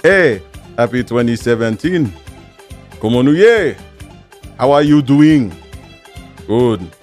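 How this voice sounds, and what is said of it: Bad put-on Haitian accent. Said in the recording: “I don't know where that accent came from. That was terrible. I was cultural appropriating the Haitian people right there.”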